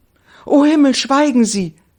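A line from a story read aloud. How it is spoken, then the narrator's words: Young woman exclaiming. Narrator (German): rief die junge Frau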